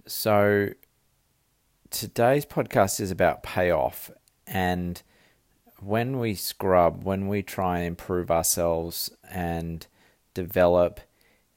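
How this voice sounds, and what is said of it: Australian accent. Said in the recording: “the Aussie accent that I have”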